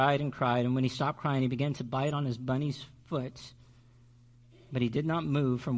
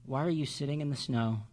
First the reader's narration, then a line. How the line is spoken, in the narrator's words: he asked in a gentle voice